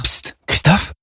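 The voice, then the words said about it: Whispering. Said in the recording (French): “pourquoi chuchotez-vous ?”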